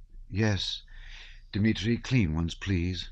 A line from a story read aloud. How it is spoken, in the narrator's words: said the Countess, sighing deeply